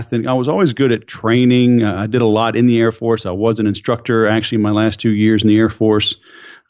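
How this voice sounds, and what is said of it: Mild Southern American accent. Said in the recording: “you have a kind of a southern accent”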